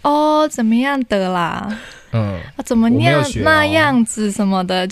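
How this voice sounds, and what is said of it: Imitated Taiwanese indigenous accent. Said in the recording (Chinese): “就是会学我们的口音，其实听起来就觉得有点怪怪的 ... 就是学的太没有技巧，跟都是太同一个套路”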